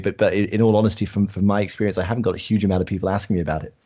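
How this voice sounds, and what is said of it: British accent. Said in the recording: “obviously ... is based in the UK. You should have known that by the accent.”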